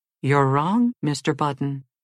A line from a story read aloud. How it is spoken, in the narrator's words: said the nurse